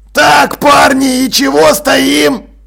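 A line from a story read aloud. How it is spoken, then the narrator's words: Shout. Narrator (Russian): крикнул Джекрам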